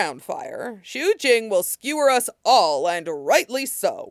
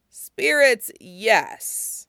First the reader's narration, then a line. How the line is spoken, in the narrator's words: the swordswoman said dryly